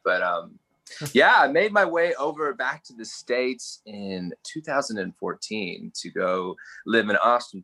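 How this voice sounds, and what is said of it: Australian accent. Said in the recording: “a weirdo from Down Under. However, with my accent, I've spent time in Texas and Hawaii ... I would call myself mainly Australian.”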